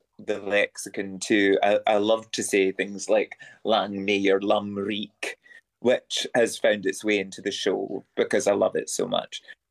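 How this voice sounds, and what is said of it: Convincing Scottish accent. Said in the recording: “that Scottish accent is so absolutely spot on”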